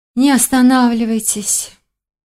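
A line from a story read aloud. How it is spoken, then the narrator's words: Languid sigh. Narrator (Russian): томно вздохнули на первом ряду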